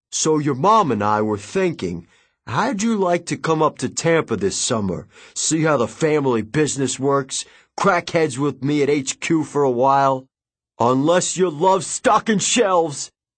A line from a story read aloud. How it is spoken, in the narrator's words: He laughed so loudly